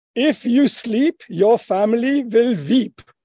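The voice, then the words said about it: Put-on Indian accent. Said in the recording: “I'm going to have to do this in an Indian accent ... Are you allowed to do that accent?”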